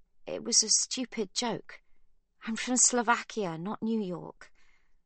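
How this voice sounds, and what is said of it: Small, timid voice. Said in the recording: “says Sibby in a small voice.”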